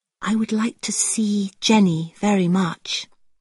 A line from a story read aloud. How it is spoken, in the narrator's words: said quietly